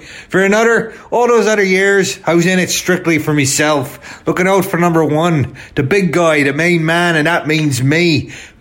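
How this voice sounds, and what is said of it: Put-on Irish accent. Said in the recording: “I'm speaking in an Irish accent now”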